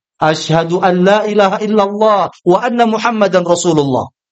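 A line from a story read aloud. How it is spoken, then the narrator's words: Loud declaration. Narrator (Indonesian): mengatakan dengan lantang di depan Umar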